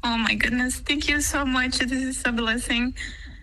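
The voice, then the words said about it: Emotional voice. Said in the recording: “Why do you get emotional?”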